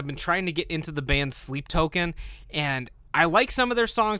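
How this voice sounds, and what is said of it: Slightly hoarse voice. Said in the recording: “apologize for my voice. It is a bit hoarse”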